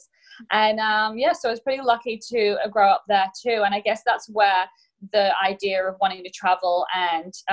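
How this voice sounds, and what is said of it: English accent. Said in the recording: “I know the accent might give it away ... So I'm originally from England”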